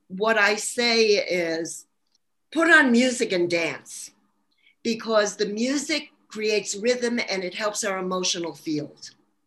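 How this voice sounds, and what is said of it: Brooklyn New York accent. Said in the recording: “I'm originally a New Yorker. Probably hear my New York accent. Actually, Brooklyn, New York.”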